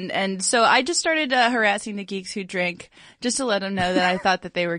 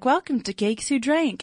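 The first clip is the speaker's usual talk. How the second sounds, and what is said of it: Australian woman's accent impression. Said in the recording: “from the South, or was that a ... Australian? ... European ... accent? ... That was Australian. ... That was my Margot Robbie impression. ... that was so good.”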